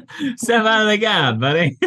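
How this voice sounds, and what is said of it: South Park Canadian accent. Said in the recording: “That sounds nothing like a Canadian ... it's actually the South Park Canadian ... It's the South Park Canadian accent.”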